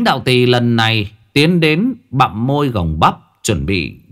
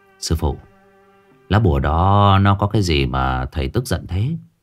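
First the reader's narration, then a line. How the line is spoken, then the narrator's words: Soft question. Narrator (Vietnamese): Chín khẽ hỏi ông Đường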